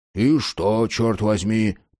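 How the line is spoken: Grumbling. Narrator (Russian): пробурчал Карл

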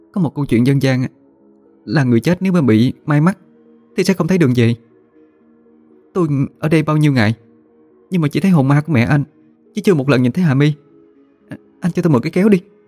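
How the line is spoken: Trembling, frightened voice. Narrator (Vietnamese): Huyền nhớ đến giấc mơ mà run rẩy nói

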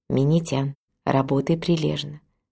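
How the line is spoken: Whispered in ear. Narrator (Russian): мама Сакагучи наклонилась ко мне и прошептала на ухо

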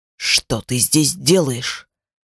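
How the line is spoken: Menacing question. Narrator (Russian): грозно спросил он

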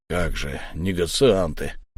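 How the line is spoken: Gloomy mutter. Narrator (Russian): хмуро пробормотал Акура

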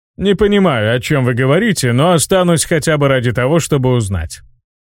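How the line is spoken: Cheerful deep voice. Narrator (Russian): весело пробасил Октиус

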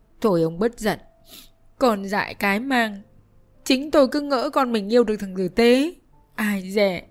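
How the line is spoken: Tearful, on verge of crying. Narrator (Vietnamese): Bà Lầm mếu máo nói với chồng

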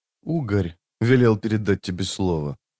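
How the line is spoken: Said quietly. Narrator (Russian): тихо произнес тот

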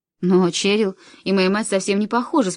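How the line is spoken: Calm. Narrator (Russian): спокойно говорю я

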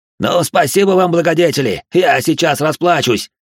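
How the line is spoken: Yell abruptly cut off. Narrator (Russian): заорал Водевиль и тут же осекся

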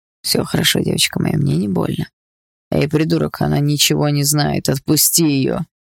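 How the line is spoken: Hoarse. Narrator (Russian): Хрипло сказал он

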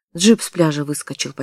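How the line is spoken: Almost calm explanation. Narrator (Russian): почти спокойно объяснил Полуянов

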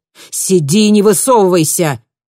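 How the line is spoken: Bark. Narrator (Russian): рявкнул Сур

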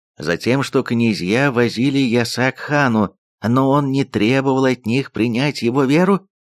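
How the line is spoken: Calm answer. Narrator (Russian): спокойно ответил Сарте

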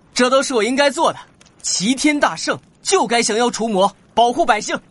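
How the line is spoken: Happy young man. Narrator (Chinese): 名叫陈无敌的年轻人开心道

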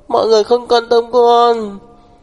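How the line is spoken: Sobbing. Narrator (Vietnamese): Đường Đường nức nở nói

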